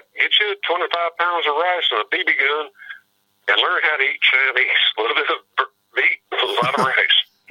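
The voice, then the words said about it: Southern American accent. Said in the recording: “my weird southern accent”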